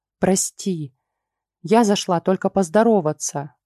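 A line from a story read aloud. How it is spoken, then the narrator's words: Sigh. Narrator (Russian): вздохнула Ульрика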